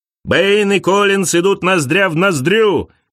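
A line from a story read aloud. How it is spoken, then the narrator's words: Shouting commentator. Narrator (Russian): кричал комментатор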